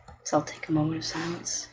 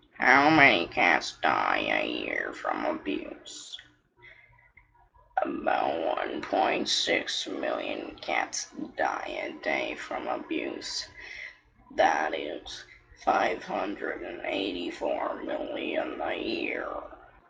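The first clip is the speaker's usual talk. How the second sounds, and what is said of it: Morgan Freeman impression. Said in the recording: “in my Morgan Freeman voice”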